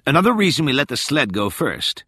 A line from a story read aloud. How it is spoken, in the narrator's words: called out when she saw Rachel admiring the line of flares